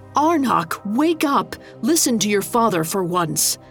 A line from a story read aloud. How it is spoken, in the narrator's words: Soon his voice grew desperate as he said